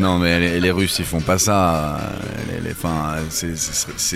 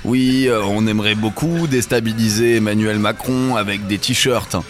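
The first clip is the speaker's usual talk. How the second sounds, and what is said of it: Mock Russian accent. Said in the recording (French): “il faut imaginer l'accent russe”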